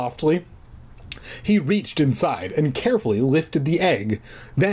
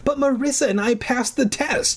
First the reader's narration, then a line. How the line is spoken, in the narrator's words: I wailed